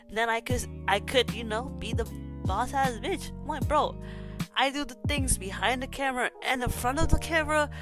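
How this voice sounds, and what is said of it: Congested, stuffy-nosed voice. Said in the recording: “I sound so congested. I'm sorry if I sound ugh in this podcast, but I'm actually getting, you know, over, you know, a flu.”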